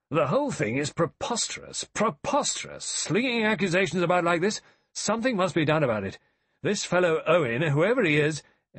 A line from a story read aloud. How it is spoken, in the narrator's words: He exclaimed